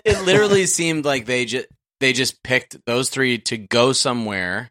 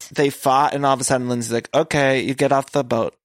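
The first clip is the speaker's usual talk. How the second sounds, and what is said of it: Vague put-on accent. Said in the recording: “I don't even know what accent I'm doing now.”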